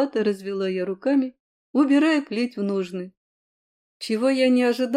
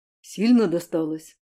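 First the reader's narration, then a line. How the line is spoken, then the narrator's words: Sudden quiet concerned question. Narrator (Russian): Внезапно озабоченно и тихо спросил он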